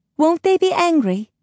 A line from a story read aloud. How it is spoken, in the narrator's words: piped the boy